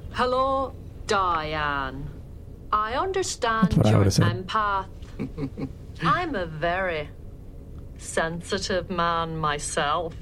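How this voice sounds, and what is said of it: Impression with slight Scottish accent. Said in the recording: “It's like a little bit of a Scottish accent ... That's a very good impression of Dr. Mazan.”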